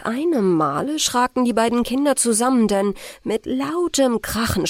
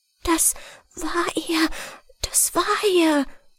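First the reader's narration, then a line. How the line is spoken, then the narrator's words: Whispered. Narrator (German): flüsterte Gertrud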